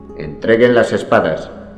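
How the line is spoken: Plain. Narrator (Spanish): dijo el alguacil

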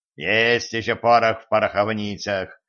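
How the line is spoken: Satisfied devilish grunt. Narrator (Russian): удовлетворенно хмыкнул дьявол

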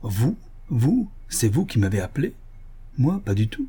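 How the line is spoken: Cracked protesting voice. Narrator (French): protesta Varin d'une voix cassée, qui me rappela celle de son frère

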